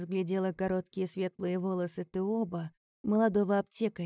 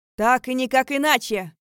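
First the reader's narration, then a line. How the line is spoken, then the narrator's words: Young man shouting. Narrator (Russian): выкрикнул какой-то молодой человек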